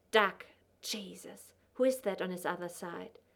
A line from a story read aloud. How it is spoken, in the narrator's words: Ellen muttered